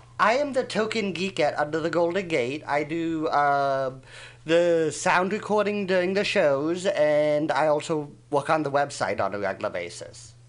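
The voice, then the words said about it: Swiss-accented English, partly Chicago. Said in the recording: “you have a fabulous Irish accent... Except it's not Irish... It's Swiss... it's half Swiss and half Chicago... I keep getting Swiss and Swedish”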